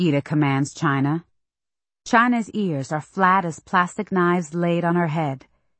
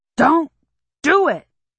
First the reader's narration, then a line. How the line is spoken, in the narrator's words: Daddy yells against his tugging, but his grunts eat the don't